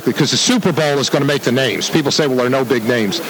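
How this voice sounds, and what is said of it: Philadelphia South Jersey accent. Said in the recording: “that great accent of yours comes from, but it is a Philadelphia area ... Philly. It's South Jersey.”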